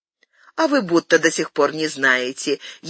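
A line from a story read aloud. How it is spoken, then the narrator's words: Snide remark. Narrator (Russian): ехидно заметила Акоги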